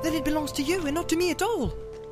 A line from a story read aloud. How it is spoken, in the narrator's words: cried Frodo in amazement